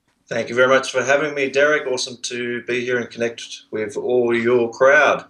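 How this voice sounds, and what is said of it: Australian accent. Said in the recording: “you're an Aussie ... my Australian accent”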